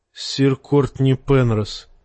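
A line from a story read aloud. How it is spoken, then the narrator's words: Sad. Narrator (Russian): печально молвила Бриена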